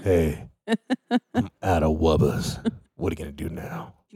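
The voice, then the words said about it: Deep voice for a baby. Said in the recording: “do that deep voice”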